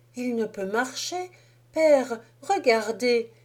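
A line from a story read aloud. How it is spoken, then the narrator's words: Trembling-voiced exclamation. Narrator (French): s'écria-t-elle avec un frémissement dans la voix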